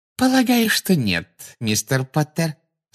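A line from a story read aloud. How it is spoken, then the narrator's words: Sugary voice. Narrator (Russian): сладким голосом проговорила Амбридж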